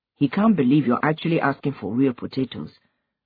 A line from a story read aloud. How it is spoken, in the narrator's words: Obinze said dryly